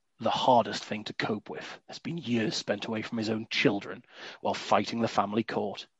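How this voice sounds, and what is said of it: Grand, dramatic reading voice. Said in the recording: “do my best dramatic voice ... give this masterpiece of advertising the grandeur that it deserves”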